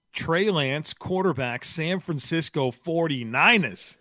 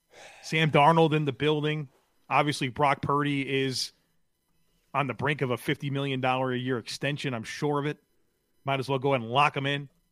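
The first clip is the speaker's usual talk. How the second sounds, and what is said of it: Sarcastic delivery. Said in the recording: “That was sarcastic.”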